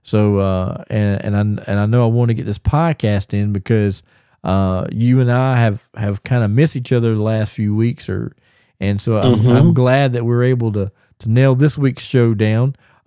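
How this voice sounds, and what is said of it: Slightly hoarse, not fully recovered voice. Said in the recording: “I don't know if you fans can hear my voice, but I ended up catching strep throat... My voice is, not 100%, but it ain't as bad as it was.”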